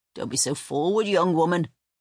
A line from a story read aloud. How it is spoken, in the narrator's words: snapped the midwife